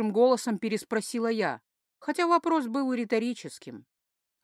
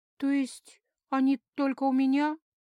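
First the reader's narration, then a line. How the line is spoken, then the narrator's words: Sad. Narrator (Russian): грустно уточнила я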